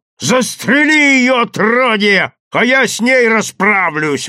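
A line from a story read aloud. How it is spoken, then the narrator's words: Frenzied yelling. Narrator (Russian): вопил Гаврилов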